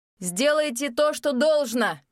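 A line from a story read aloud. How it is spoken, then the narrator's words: Shouted. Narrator (Russian): крикнул один из них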